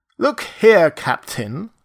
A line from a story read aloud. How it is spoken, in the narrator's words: said Montgomery, with his lisp a little accentuated